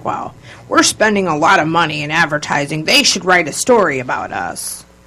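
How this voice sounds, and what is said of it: Imitation of a stubborn boss. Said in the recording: “I'm imitating an old boss. ... He's very, very Italian and stubborn.”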